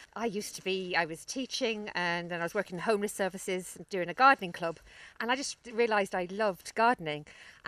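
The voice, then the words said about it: London city accent. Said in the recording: “you can probably tell from my accent that I I'm from the city. I'm from London originally”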